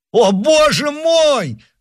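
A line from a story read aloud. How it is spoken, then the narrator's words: Desperate shout. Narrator (Russian): в отчаянии кричал Оливен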